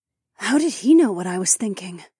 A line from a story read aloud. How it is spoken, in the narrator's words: Fila gasped